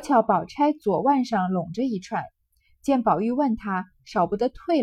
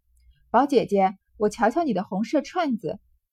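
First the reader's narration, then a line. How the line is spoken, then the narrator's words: Laughing question. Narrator (Chinese): 宝玉笑问道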